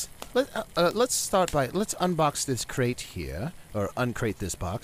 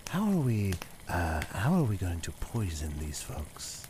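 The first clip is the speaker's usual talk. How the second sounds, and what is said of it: Whispered speech. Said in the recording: “I'm going to lower my voice to a whisper”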